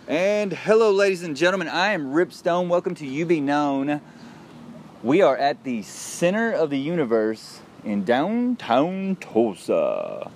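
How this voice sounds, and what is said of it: Exaggerated radio announcer voice. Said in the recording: “That's my radio voice. You like that? That's my radio voice.”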